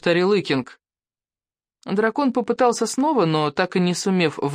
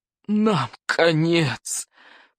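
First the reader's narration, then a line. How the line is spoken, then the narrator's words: Despairing groan. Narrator (Russian): простонал Норберт сумасброд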